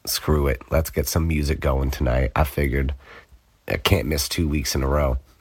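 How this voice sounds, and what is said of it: Congested, stuffed-up voice. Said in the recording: “I got hit with a crazy sickness. I couldn't really talk. It was all stuffed up. You can probably tell I'm still kind of getting over it here. ... My voice isn't quite back to normal yet”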